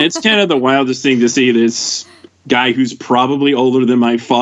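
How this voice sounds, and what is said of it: Usual voice. Nothing is said of it.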